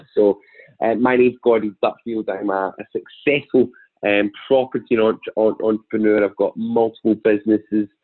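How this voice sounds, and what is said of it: Strong Glaswegian accent. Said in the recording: “my fairly strong Glaswegian accent”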